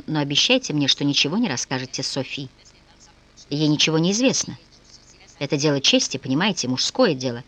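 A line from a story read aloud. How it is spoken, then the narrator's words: Whisper. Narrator (Russian): прошептал он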